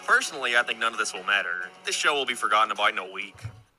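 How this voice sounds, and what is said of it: Irish accent. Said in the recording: “He's Irish, by the way, so that's the accent.”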